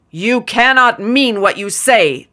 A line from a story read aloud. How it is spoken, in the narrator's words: the other shrieked